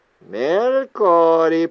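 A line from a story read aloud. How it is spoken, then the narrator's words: Repeating. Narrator (Russian): повторил Джордж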